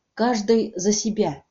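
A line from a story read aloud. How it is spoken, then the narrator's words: Quiet. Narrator (Russian): тихо сказала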